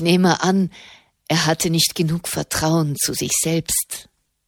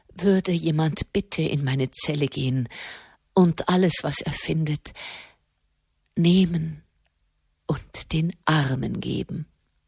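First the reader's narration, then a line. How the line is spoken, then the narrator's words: Broken voice. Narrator (German): sagte mit gebrochener Stimme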